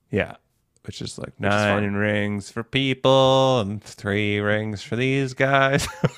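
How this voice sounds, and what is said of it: Imitates another person's singing voice. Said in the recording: “that your Fiona Apple impersonation?”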